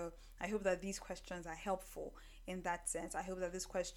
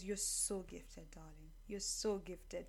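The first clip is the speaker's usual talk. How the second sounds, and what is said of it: Voice drops noticeably lower. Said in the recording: “did my voice drop several notches”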